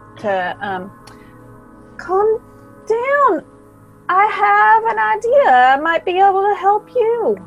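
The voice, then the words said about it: Slight southern accent. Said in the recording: “My slight southern accent is just not charming enough.”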